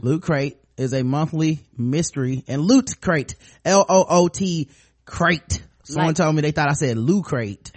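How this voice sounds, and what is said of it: Southern American accent. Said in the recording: “I got a southern accent”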